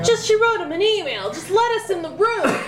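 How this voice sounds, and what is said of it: Raised, shouting voice. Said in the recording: “I'm raising my voice, like, on purpose.”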